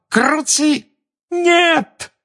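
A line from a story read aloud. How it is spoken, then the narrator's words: Cracking-voiced shout. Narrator (Russian): сорвавшимся голосом крикнула Гермиона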